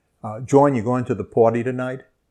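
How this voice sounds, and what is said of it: New Orleans Brooklyn-like accent. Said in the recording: “the Brooklyn accent and the New Orleans accent are really quite similar ... the reason that we share that accent”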